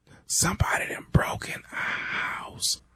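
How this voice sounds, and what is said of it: Quiet whispered speech. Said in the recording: “Man, speak up. I can't hear you. ... why the hell you whispering?”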